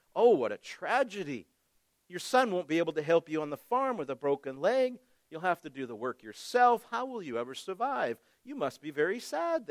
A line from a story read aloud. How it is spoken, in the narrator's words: they said